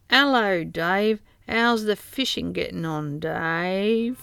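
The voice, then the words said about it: Lazy drawl with slight nasal twang. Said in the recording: “in a lazy drawl with just a hint of nasal twang”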